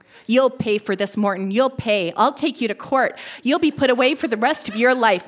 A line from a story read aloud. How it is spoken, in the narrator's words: mother screamed